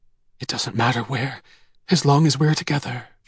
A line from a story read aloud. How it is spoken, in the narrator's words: she whispered